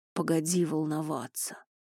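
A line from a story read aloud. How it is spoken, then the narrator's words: Grumbled. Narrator (Russian): пробурчал он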